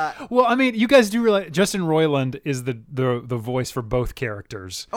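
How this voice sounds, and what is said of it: Usual voice. Nothing is said of it.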